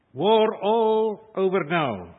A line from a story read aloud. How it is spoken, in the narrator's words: said